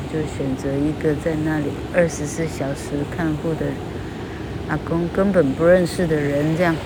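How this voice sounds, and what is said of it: Speaking very quietly. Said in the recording (Chinese): “我讲这么小声，听得见吗？”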